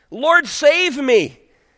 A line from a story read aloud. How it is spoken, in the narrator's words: he was afraid, and beginning to sink, he cried out